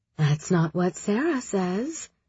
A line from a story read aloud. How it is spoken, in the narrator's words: Shahzad muttered